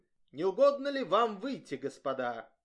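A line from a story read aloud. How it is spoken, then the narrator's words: Authoritative, Alsatian-accented French. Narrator (Russian): Офицер, по-французски, но с эльзасским акцентом, сказав властным тоном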